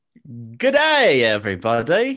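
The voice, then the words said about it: Poor attempt at Australian accent. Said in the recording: “can't do an Australian accent to save his life ... That was god awful ... God, that was horrible.”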